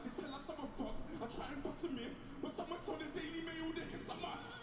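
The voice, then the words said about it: Thick British accent. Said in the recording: “thick British accent”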